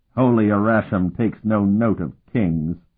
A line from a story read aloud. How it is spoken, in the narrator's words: the disciple sneered arrogantly